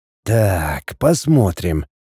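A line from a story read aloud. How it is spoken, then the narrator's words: Muttered. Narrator (Russian): пробормотал Лин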